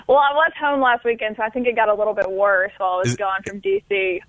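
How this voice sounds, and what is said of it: Southern American accent. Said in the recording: “her Southern accent is my favorite accent ... a little more country now”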